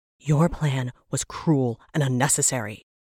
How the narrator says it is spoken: Brenora spat, struggling for breath

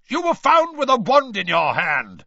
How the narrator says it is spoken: barked Mr

